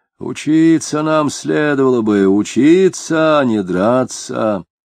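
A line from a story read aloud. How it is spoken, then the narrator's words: Booming bass voice. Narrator (Russian): гулким басом говорил он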